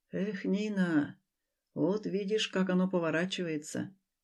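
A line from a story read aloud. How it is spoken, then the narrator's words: Absent-minded mutter. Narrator (Russian): Рассеянно пробормотал Алексей Маркович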